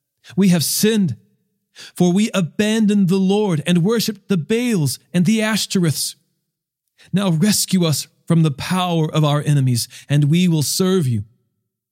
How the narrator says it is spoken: they cried out to the Lord and said

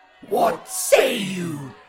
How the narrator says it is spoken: the crowd roared

